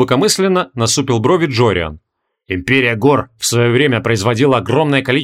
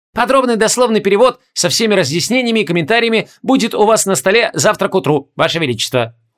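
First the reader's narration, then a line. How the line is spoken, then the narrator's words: Obsequious squeak. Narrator (Russian): услужливо пискнул Фторимен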